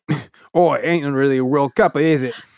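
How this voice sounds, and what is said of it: Put-on accent. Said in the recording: “do it in the accent”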